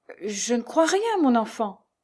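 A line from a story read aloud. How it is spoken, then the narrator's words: Stammered. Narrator (French): balbutia Jeanne Fortier qui ne pouvait pas s'expliquer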